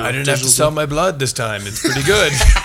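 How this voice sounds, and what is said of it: Vaguely Mexican accent, filmmaker impression. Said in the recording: “It's vaguely Mexican. I'm sorry. That was maybe a terrible accent. I was just trying to be a ruminating filmmaker.”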